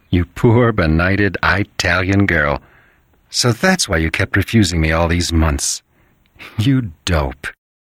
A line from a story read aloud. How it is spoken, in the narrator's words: laugh softly and say